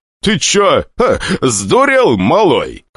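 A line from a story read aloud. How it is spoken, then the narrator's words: Laughing while spitting blood. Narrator (Russian): хохотнул старатель, сплевывая кровь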